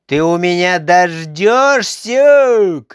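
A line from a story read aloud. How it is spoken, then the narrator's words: Shout. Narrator (Russian): крикнула она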